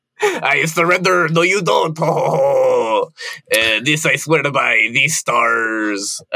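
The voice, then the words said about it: Deliberately bad French accent. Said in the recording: “a really awful French accent ... that's my French accent”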